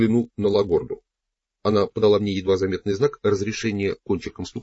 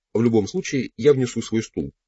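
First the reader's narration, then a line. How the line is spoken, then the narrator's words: Plain. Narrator (Russian): сказал Паблито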